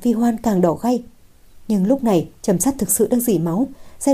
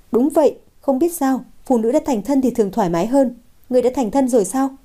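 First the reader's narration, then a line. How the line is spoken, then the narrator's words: Laughing. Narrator (Vietnamese): Lâu Thất bật cười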